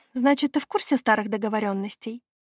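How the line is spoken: Sighing. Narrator (Russian): вздохнула

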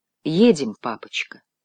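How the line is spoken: Soft. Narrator (Russian): мягко сказала Этель

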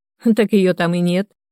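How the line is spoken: Loud laughter. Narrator (Russian): расхохотался Денис

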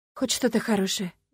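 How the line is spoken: Sighing. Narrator (Russian): вздохнула я

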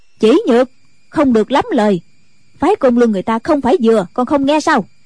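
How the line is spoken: Loud scolding nun. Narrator (Vietnamese): Diệt Tuyệt sư thái cũng lớn tiếng mắng

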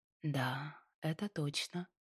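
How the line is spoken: Quiet agreement. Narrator (Russian): Тихо согласилась

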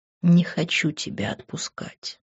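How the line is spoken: Whisper. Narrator (Russian): прошептал Грант

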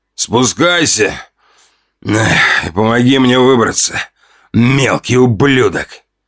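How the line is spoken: Growled from darkness. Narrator (Russian): Прорычали из темноты

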